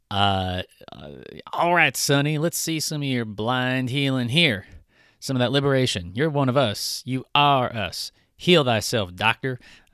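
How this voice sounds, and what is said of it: Put-on Southern accent. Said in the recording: “I probably shouldn't be using a southern accent to convey backwardness.”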